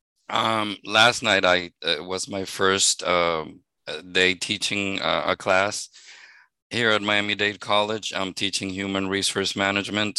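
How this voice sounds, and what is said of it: Hoarse, fading voice. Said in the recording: “I'm losing my voice here.”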